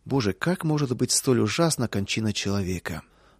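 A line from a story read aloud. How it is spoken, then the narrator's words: Prisoner's heavy sigh. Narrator (Russian): один из заключенных тяжко вздохнул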